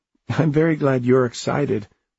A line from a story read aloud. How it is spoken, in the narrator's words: Alice laughed as she ran to catch up to him